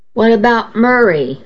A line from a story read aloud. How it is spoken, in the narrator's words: Adam asked me anxiously